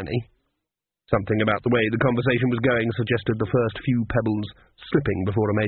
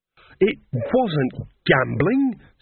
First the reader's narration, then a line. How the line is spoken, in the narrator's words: snapped Nanny